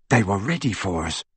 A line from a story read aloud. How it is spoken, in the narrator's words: whispered Harry